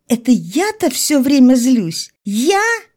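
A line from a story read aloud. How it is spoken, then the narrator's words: Shrill squeal. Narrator (Russian): Я взвизгнула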